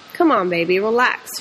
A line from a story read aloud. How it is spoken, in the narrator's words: she sighed